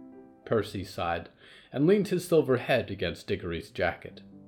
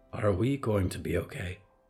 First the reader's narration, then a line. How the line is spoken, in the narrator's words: Percy whispered